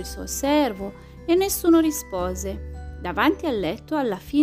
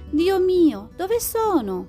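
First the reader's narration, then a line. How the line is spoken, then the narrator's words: Exclaimed. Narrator (Italian): esclamò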